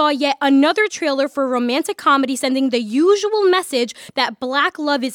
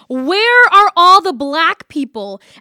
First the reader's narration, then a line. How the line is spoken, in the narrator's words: I'd yell